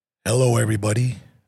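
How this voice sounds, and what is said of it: Low, sexy voice. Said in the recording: “That's my low sexy voice.”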